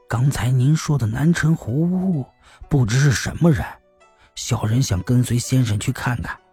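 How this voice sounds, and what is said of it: Quiet, hushed voice. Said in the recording (Chinese): “听到有人小声说”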